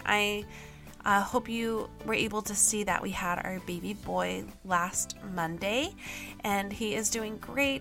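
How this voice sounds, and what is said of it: Slightly gravelly, rough voice. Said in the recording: “my voice sounds a little gravelly”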